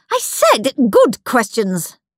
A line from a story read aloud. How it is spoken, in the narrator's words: snapped Miss Battleaxe